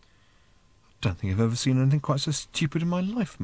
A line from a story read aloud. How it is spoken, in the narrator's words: muttered Ford to himself